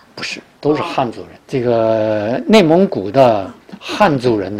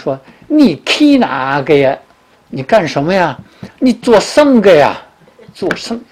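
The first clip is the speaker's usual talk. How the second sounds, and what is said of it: Imitated Shanxi dialect speech. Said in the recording (Chinese): “说话都是这个山西口音”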